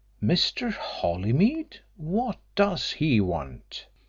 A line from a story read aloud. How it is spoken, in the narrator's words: Hill exclaimed